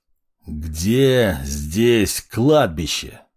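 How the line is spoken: Growl. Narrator (Russian): рыкнул я

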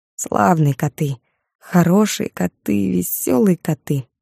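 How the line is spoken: Muttering. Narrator (Russian): бормотал Константин

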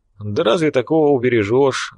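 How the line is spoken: Sighing. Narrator (Russian): вздохнул Фрол

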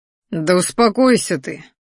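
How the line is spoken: Tired. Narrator (Russian): устало произнес я

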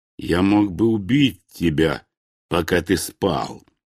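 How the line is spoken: Slow. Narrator (Russian): медленно произнес мой противник

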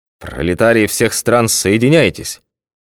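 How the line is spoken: Sleepy grumble. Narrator (Russian): Пробурчал еще сонный спецкор

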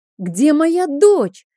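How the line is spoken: Furious scream. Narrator (Russian): заорала я

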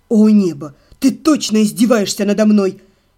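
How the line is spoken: Almost growling. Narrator (Russian): Себастьян чуть не зарычал

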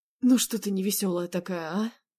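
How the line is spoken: Hoarse question. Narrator (Russian): хрипло поинтересовался он

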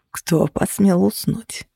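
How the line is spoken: Whisper. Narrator (Russian): прошептали мне

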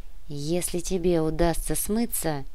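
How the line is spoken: Barely audible whisper. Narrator (Russian): едва слышно прошептал Артем

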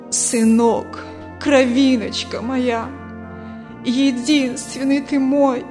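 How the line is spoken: Old mother sobbing. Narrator (Russian): Старая мать сквозь рыдания говорит

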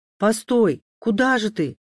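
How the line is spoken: Shouted after someone. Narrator (Russian): крикнул ей вслед Александр

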